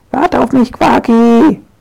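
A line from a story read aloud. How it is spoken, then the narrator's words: Shouting. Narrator (German): schreit sie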